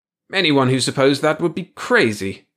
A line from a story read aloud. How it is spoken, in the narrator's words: Evans blurted